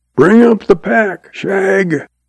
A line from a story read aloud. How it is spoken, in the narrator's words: he hollers